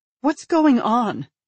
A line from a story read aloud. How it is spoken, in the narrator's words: his wife blurts out suddenly, her face ashen